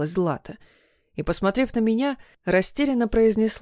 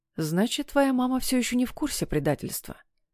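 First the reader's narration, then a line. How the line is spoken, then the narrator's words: Long sigh, flat statement. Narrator (Russian): протяжно вздохнув, констатировал я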